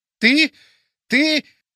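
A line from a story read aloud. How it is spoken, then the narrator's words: Hoarse wheezing. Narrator (Russian): хрипел он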